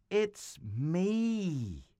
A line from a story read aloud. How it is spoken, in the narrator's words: Joseph cried